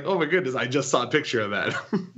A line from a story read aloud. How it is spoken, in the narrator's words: laughing so hard like